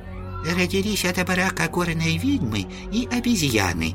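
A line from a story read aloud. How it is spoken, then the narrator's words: Quiet prompting. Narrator (Russian): тихонько подсказал Лю VII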